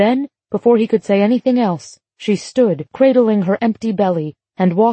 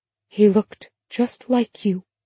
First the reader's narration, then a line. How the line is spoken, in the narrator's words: she whispered